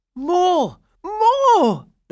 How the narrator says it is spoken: the boys cried out

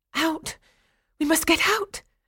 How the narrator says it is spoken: cried one girl

